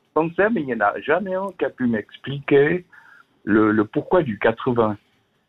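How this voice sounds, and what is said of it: Slight Swiss French Vaud accent. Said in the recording (French): “du côté du canton de Vaud... Avec l'accent que j'ai... un petit peu, oui”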